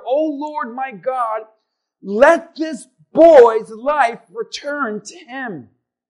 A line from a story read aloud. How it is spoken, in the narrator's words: cried to the Lord